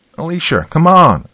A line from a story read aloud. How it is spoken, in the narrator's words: Jaden shouted